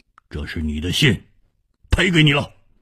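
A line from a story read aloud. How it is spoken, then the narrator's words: Cold. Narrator (Chinese): 他冷冷地说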